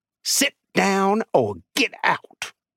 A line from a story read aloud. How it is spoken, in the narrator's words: Dell ... hissed